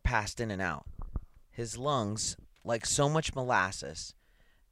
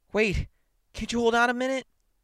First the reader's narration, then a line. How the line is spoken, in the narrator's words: panting